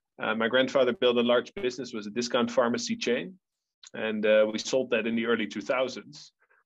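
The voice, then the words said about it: Dutch accent. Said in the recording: “a family from the Netherlands originally, which you'll still get from my accent”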